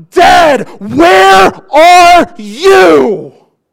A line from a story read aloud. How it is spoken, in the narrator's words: he screams out